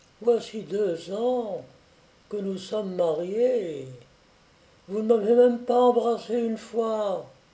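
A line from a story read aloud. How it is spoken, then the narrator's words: Coaxing tender tone. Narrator (French): elle lui dit d'un ton câlin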